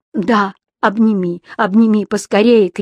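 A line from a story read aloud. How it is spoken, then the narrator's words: Shout. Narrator (Russian): крикнул Матис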